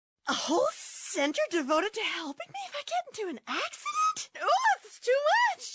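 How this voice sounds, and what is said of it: Easily overwhelmed, panicky character voice. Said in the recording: “this is my impression of an easily overwhelmed person”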